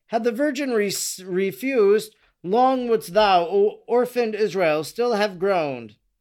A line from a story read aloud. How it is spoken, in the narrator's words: she exclaimed